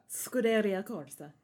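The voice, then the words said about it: Exaggerated Italian accent. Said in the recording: “I had no idea you did such a great Italian accent.”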